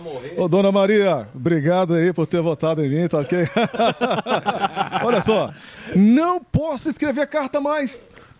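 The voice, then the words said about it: Imitates another person's voice. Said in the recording (Portuguese): “faz o trote aqui, fala que é o Bolsonaro que tá ligando”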